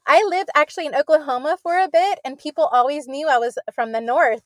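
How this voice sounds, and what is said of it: Pennsylvania Pittsburgh accent. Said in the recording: “I detected some kind of an Eastern accent, so I was right, Pittsburgh ... you sound so Pennsylvania”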